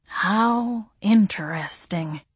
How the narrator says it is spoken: he said, his voice tinged with awe

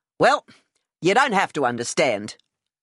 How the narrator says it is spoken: I said curtly

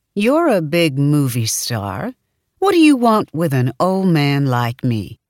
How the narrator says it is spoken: Miles would sometimes teasingly say to me

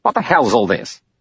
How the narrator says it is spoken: He said sharply

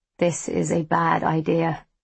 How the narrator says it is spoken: he murmurs

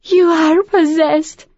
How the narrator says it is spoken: Han Huao sobbed through her tears

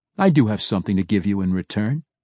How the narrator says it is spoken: Drizzt replied, his voice calm

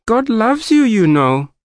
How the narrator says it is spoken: shrieked the woman

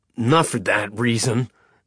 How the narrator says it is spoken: Madog snapped

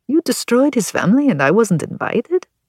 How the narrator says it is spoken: Alessandro said, his tone light

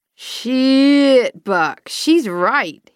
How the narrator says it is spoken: he drawled

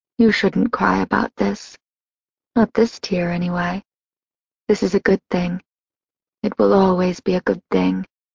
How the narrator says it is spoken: she murmured with a soft smile

